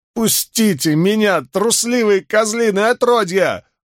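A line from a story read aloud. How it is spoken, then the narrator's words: Yelling while struggling. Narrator (Russian): вопил бившийся в их руках Мэтт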